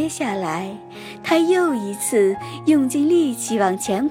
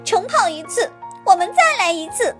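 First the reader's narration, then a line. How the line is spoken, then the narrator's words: Furious loud shout. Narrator (Chinese): 这下野兔可气坏了，大声喊道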